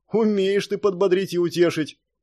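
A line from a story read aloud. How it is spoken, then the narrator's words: Shouted from a distance. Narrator (Russian): крикнул ему со стены Мартин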